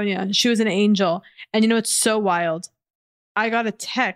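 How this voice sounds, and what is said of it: Usual voice. Nothing is said of it.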